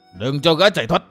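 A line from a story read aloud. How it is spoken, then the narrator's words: Shouting. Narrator (Vietnamese): Lão hổ pháp quát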